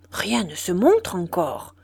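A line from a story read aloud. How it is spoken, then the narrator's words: Murmuring. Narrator (French): murmurait-il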